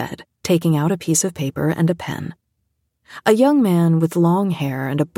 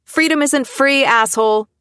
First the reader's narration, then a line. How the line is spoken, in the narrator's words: Frankie yelled